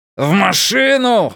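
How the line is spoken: Yelling. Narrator (Russian): заорал Бу

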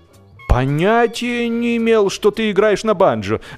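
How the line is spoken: Exclaimed in unison. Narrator (Russian): воскликнули мы с Гаррисом в один голос

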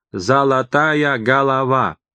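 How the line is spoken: Loud, comically mangled words. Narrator (Russian): Айсидора смешно коверкая слова, громко проговорила

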